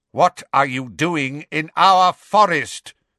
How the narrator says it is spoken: bellowed the hard-faced grey centaur

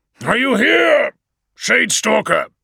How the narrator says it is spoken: shouted Vulcan

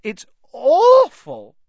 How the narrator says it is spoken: Hermione emerged, sobbing

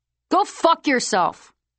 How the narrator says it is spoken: someone yelled hoarsely

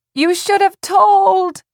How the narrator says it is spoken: Tess screamed down at him

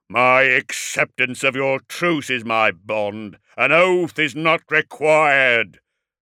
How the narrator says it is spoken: bellowed Magnaric indignantly

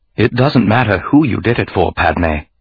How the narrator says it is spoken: he said softly

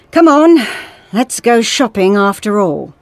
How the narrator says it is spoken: the doctor said wearily

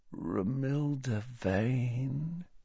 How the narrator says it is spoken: said Ron softly, and his whole face seemed to illuminate as he said it, as though hit by a ray of purest sunlight

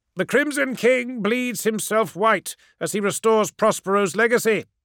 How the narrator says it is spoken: cried

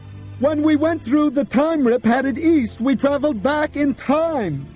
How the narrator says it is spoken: Bob shouted

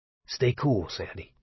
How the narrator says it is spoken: Buddy said softly

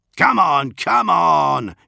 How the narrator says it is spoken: he shouted

